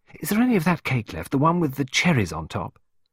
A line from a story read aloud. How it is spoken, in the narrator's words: Pippa asked excitedly